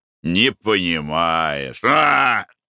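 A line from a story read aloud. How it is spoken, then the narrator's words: Sighed. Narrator (Russian): вздохнул Николай Иванович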